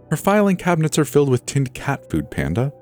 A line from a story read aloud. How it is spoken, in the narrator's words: said with an exaggerated sigh